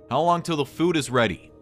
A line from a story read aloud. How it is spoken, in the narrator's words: I yelled to Lance